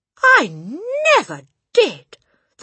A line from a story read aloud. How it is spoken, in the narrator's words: the boy exclaimed